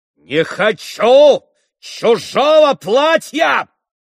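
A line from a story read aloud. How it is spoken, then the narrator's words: Menacing shout. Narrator (Russian): грозно закричал он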